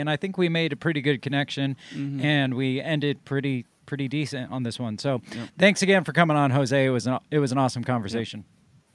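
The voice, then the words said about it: Voice going hoarse. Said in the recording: “I'm losing my voice.”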